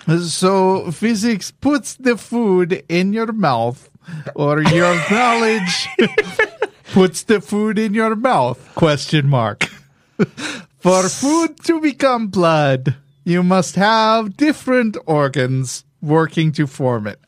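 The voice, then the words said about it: Put-on Greek accent. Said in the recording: “Can you do it with physics... a Greek accent? ... Let me channel my big fat Greek wedding ... I have no idea if that's a plausible Greek”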